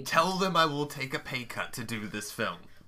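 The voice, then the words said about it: Put-on accent wavering, British and mixed. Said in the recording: “Why is your accent fluctuating wildly between British and then just a melange of other voices you've heard in your life?”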